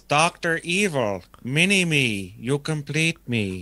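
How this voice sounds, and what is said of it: Imitates Dr. Evil character voice. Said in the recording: “That's a good impression.”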